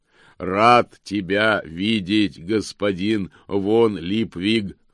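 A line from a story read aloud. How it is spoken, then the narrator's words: Joyful booming. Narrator (Russian): радостно прогремел он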